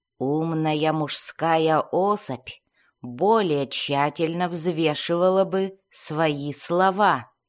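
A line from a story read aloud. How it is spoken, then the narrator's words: Growling. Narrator (Russian): вслух прорычала Бриза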